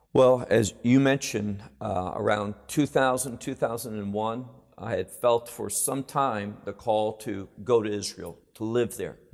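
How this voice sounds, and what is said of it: American accent. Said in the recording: “your American accent”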